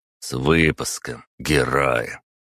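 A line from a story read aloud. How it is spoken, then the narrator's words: Through gritted teeth. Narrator (Russian): Виталий процедил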